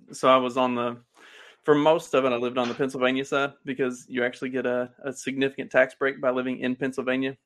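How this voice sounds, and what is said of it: Southern American accent. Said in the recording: “my Southern accent got worse ... I was getting progressively more and more Southern”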